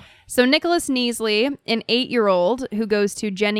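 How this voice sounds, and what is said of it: Usual voice. Nothing is said of it.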